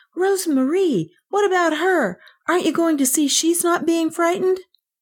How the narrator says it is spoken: Kay cried

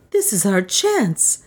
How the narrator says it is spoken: said Juana excitedly

